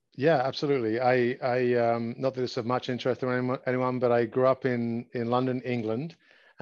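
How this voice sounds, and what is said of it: Slight accent. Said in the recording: “I sense a little bit of an accent there.”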